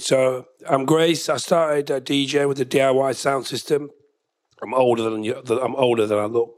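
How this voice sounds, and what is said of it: Unwell, strained-sounding voice. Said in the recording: “excuse my voice. I'm kind of ill. ... So my voice might go halfway through.”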